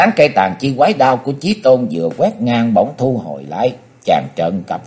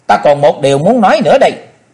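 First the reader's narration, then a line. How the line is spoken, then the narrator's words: Sudden shout. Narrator (Vietnamese): Quý bà chợt hét lên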